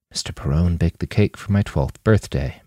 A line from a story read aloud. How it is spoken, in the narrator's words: Manny whispered